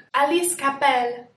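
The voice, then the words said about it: Attempted French-accented pronunciation. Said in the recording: “She's French, I'm trying to use my accent.”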